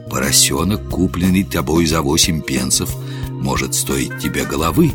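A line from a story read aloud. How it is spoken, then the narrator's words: Low whisper in ear. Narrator (Russian): Гендон понизил голос и шепнул на ухо полицейскому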